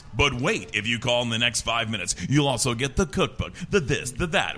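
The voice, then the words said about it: Infomercial-style promo voice. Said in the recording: “it was literally the exact same voice... doing an impression of myself at age like 10”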